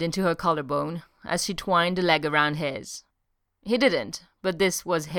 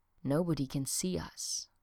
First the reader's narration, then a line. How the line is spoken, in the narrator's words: she whispered